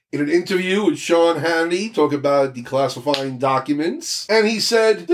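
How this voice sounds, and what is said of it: Usual voice. Nothing is said of it.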